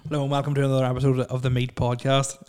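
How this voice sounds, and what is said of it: Very fast, mumbled speech. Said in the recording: “I said that really fast ... You mumbled a little bit.”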